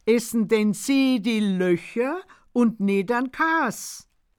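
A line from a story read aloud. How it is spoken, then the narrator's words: Loud laughing. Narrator (German): Er lacht furchtbar und freut sich selbst am meisten über seinen Einfall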